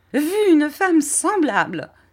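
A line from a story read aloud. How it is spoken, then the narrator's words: Exclaiming. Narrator (French): s'écria Miss Murdstone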